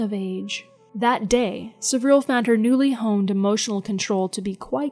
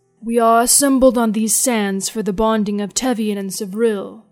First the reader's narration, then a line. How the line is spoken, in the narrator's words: said the High Master in an ancient, husky voice